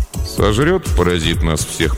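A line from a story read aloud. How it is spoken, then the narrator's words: Gloomy grumble. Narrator (Russian): проворчал он хмуро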